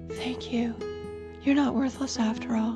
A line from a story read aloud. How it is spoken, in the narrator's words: In a sleepy voice, Malcolm said